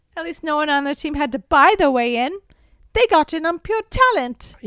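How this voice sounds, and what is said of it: Put-on accent voicing a character. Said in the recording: “My accents are better than everyone else's.”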